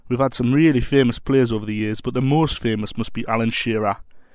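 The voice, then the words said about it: Geordie accent. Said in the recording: “They call us Geordies up here ... Great to hear ... accent”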